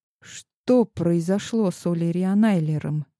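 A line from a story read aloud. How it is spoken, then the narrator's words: Quiet question. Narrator (Russian): тихо спросила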